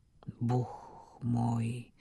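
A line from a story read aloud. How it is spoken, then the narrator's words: Whispered to himself. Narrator (Russian): прошептал про себя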